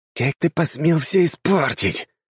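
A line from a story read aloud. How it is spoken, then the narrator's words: Angry hiss. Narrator (Russian): от злости, прошипел он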